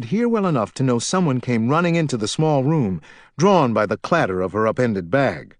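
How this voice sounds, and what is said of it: Usual voice. Nothing is said of it.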